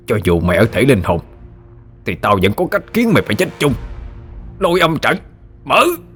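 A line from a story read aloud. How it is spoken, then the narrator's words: Snarling through bared teeth. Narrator (Vietnamese): Hắn nhe hàm răng ra mà gằn giọng nói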